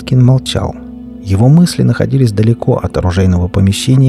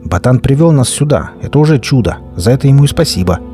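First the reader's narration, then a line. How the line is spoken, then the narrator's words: Loud and convincing. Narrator (Russian): Слова Лёса прозвучали громко и убедительно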